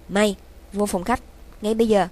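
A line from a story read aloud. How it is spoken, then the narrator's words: Furious shout. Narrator (Vietnamese): giận tím gan, Dương quát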